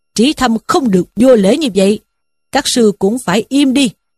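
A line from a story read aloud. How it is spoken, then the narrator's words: Old monk shouting. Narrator (Vietnamese): sư cụ ở pháp đường quát lên rằng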